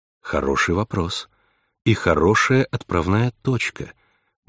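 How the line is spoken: Soft, supportive. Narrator (Russian): мягко поддержала она собеседницу

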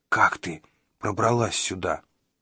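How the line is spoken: Quiet, fur-muffled question. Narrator (Russian): С языком, полным шерсти, он тихонько спросил

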